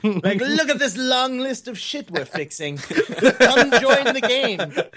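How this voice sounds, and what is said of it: Mock medieval accent. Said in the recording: “talking like in a medieval accent”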